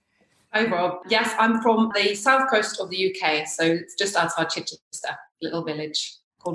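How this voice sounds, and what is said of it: Slight Norwegian accent. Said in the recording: “I don't know if you can notice the accent... I'm from Norway”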